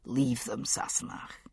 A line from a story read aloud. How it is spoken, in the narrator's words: he murmured from the bed